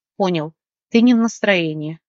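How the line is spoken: Sighing. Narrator (Russian): вздохнул Марк

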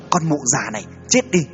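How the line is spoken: Loud shout. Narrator (Vietnamese): gã ... quát lớn

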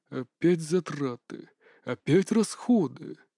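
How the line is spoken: Muttering, emperor. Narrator (Russian): пробормотал император

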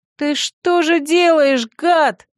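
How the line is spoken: Yelling. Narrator (Russian): заорала я

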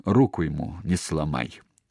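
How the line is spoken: Quiet, through clenched teeth. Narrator (Russian): Сказала только тихо сквозь зубы

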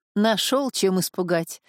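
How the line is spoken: Friend laughing. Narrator (Russian): засмеялся друг

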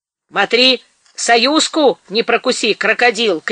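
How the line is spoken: Shouted. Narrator (Russian): крикнул Бандей

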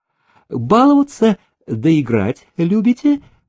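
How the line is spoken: Cheerful question, tsar. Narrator (Russian): весело спросил царь

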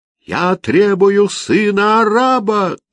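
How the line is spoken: Yelling. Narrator (Russian): заорал он

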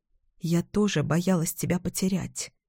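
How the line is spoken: Whisper. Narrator (Russian): я прошептала

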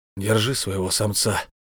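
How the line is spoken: Deliberately rude, through teeth. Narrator (Russian): намеренно грубо процедил он

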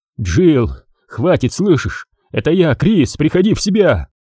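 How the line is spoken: Pained hoarse rasp. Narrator (Russian): прохрипел Редфилд, чувствуя противную боль в плечевом суставе

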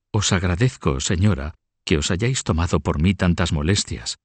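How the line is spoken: Tearful murmur. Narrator (Spanish): murmuró con lágrimas en los ojos

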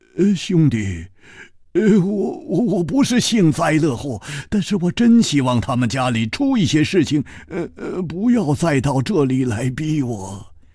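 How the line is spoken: Sighing, bitter smile. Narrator (Chinese): 他叹了一口气，苦笑着说

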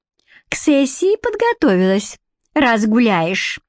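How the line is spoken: Snide, needling voice. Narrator (Russian): Ехидным голосом продолжала надоедать Лиска

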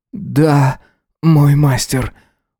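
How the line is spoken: Breathless exhale. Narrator (Russian): Выдохнул он

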